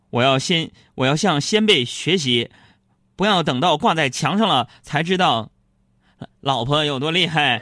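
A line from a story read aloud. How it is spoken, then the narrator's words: Loud, knowing. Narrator (Chinese): 我就心领神会的大声说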